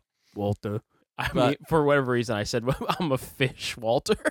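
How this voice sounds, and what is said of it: Usual voice. Nothing is said of it.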